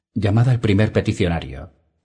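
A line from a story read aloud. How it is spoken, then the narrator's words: Sigh. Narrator (Spanish): suspiró Dany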